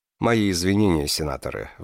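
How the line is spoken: Sighing. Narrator (Russian): вздохнул Кришна

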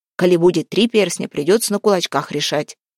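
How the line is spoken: Amused snort. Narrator (Russian): хмыкнул Егорка

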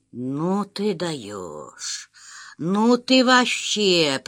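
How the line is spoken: Lisping. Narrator (Russian): прошепелявил

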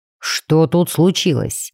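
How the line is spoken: Deep bass voice. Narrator (Russian): пробасил Мортимер

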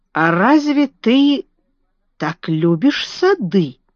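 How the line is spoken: Slow speech. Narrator (Russian): медленно сказал он

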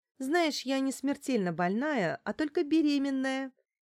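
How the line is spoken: Cheerful, offhand. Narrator (Russian): весело бросила Лариса

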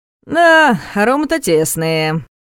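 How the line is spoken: Drawling. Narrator (Russian): протянул он

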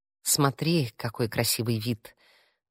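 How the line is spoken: Insinuating voice. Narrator (Russian): голос Алекса звучал вкрадчиво

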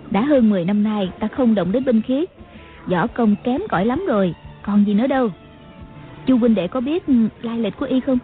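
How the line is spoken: Smiling speech. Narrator (Vietnamese): Ngọc Hư Tản Nhân mỉm cười nói

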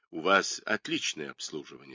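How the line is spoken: Plain. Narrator (Russian): сказал он

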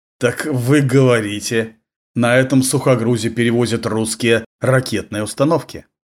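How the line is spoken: Through gritted teeth. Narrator (Russian): Сквозь зубы процедил он

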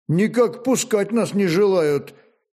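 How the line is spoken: Uncertain, impatient young man. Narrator (Russian): неуверенно проговорил молодой и потому несколько нетерпеливый стременной Федор

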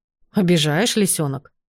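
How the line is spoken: Snorted. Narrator (Russian): фыркнул Бреннан

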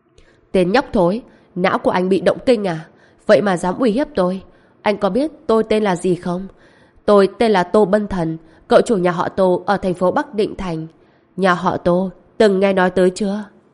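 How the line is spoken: Loud laugh, mocking. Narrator (Vietnamese): Tô Bân Thần cười to hai tiếng, nói

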